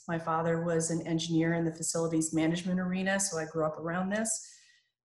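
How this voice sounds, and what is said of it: American accent. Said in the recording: “don't let the American accent throw you.”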